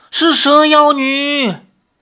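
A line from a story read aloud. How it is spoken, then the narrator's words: Crowd shouting in unison. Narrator (Chinese): 拜月教众们齐声喊叫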